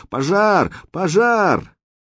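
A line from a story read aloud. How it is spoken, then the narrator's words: Alarmed villagers shouting. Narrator (Russian): всполошенные станичники кричали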